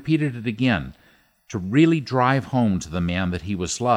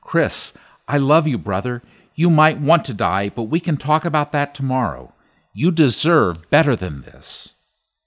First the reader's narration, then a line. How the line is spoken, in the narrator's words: Desperate, Ian shouted into the microphone